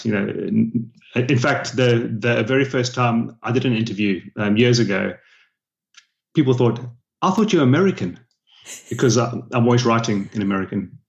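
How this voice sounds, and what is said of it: South African accent. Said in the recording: “I have a weird accent, being from South Africa”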